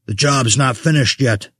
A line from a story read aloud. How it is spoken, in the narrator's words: Vessel spat